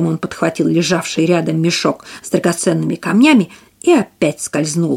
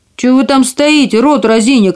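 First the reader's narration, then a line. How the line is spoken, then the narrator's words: Furious shout. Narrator (Russian): крикнул карлик, и его землистое лицо побагровело от злости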